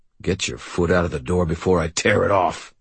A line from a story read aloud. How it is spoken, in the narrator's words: Ray growled